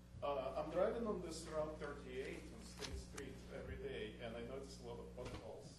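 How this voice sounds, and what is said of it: Russian accent. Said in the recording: “I love your accent... Russia?”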